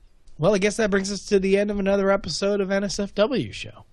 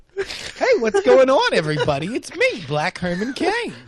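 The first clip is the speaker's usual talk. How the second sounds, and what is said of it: Weird quasi-Jewish character accent. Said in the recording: “this weird quasi-Jewish accent”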